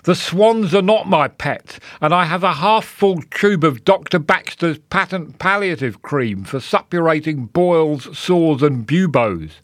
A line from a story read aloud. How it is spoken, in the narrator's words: cried